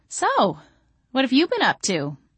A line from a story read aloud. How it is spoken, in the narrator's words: asked cheerfully